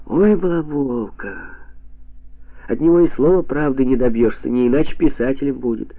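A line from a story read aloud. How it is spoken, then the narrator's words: Laughing. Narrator (Russian): засмеялась Катя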